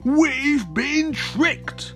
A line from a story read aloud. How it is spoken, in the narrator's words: growled King Gobbledygook